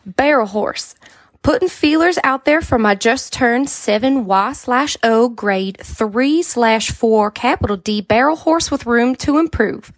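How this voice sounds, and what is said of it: Put-on Southern accent, weak. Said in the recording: “really test out a Southern accent ... it's probably going to be real bad”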